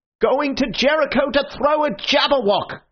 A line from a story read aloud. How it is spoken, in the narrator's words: cried the other